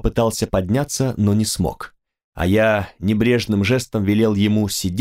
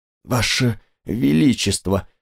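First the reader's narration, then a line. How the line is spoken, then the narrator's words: Hoarse rasp. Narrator (Russian): прохрипел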